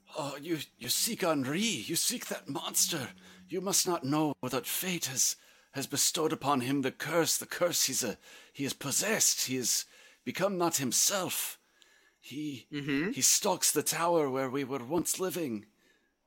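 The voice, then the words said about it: Uncertain Scottish-French character accent. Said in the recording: “I don't know what accent I'm doing now. ... He's from the Scottish part of France.”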